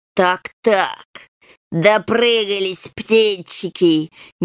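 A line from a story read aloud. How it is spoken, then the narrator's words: Snide hiss. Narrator (Russian): ехидно прошипел хромой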